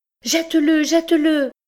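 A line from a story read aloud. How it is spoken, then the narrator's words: Shouting. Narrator (French): me criait Carmen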